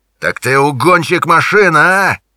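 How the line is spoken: Yelling. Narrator (Russian): орал он

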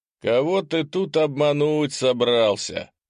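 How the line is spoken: Short laugh. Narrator (Russian): коротко хохотнул Гремшик

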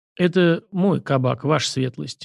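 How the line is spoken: Gloomy. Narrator (Russian): мрачно сообщил мужчина

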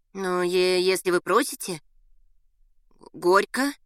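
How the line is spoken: Uncertain babbling. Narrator (Russian): неуверенно пролепетала Валентина

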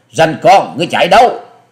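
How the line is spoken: Loud shout. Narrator (Vietnamese): thiếu nữ áo xanh đã quát to

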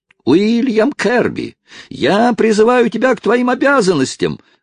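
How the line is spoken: Yelling from afar. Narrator (Russian): вопил издали Хайрам

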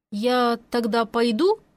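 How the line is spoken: Uncertain question. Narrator (Russian): неуверенно уточнила я

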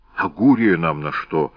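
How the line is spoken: Grumbling mutter. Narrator (Russian): буркнул Квлевидзе

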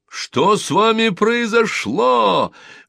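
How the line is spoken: Crowd shouting, laughing. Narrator (Russian): громко кричали ему все люди и все хохотали

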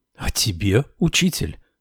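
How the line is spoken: Astonished exclamation. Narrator (Russian): воскликнула я в изумлении

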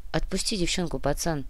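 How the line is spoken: Quiet request, stocky man. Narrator (Russian): Негромко попросил коренастый

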